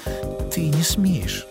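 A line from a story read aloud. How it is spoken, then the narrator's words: Confused mumbling. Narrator (Russian): Бормотала она, растерявшись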